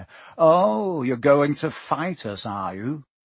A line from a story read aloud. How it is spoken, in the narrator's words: Malfoy sneered